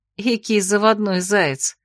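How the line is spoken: Good-natured grumble. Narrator (Russian): добродушно проворчала я

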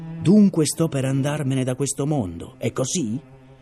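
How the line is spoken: Contemptuous growl. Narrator (Italian): L'uomo sdraiato ringhiò con grande sprezzo

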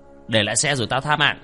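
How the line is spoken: Muffled threatening shout. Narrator (Vietnamese): hắn bịt kín mặt, quát

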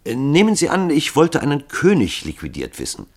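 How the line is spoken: Plain. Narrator (German): fragte Hall

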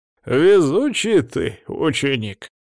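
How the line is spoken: Cheerful chuckle. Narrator (Russian): весело хмыкнул Эксара

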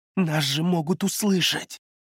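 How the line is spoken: Hissing. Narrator (Russian): прошипел Юйлун, нахмурившись

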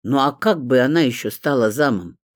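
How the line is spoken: Grumbling, spitefully envious male voice. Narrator (Russian): проворчал мужской голос с нотками злобной зависти

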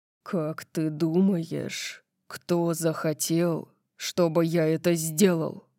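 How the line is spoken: Dangerously low voice. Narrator (Russian): спросил он опасно низким голосом

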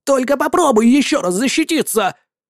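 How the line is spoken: Shouting. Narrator (Russian): закричало

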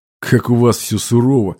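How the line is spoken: Skeptical snort. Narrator (Russian): хмыкнул

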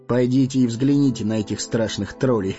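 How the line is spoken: Chuckling. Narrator (Russian): Хохотнул странник

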